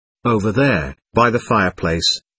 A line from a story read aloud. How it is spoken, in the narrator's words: replied Veronica